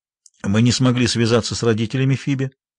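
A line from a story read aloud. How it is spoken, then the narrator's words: Dry tone. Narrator (Russian): сухо произнес он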